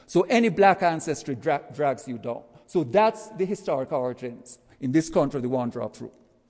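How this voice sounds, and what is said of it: Jamaican accent. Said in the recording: “As you can tell from my accent, I'm not from around these parts. Let's say I go back to Jamaica, which is where I'm from.”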